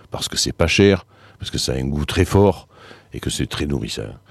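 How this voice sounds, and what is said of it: Deep voice with a regional accent. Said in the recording (French): “cette voix grave, cet accent”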